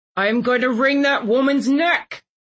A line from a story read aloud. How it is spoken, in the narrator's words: Landon bellowed a few minutes later